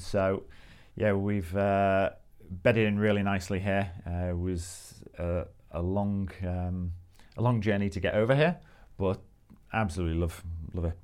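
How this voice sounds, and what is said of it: Liverpool English accent. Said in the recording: “my Australian accent hasn't quite bedded in yet ... You might be able to tell I'm from Liverpool.”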